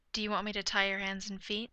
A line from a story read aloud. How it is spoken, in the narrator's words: Bruce asks softly